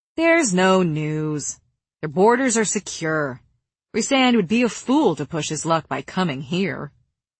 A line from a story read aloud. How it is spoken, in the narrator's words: Jurian cut her off, drawling